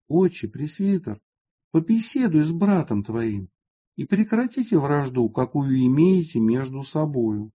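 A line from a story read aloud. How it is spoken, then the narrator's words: Quiet voice. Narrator (Russian): тихим голосом сказал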